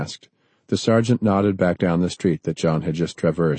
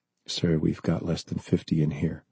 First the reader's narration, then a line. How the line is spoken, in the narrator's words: the sergeant whispered